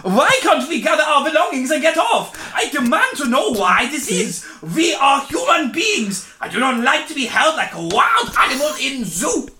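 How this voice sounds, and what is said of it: Mixed generic European put-on accent. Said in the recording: “Asked a man with an unusual and exotic accent ... An exotic voice. That was just a cacophony of every European accent.”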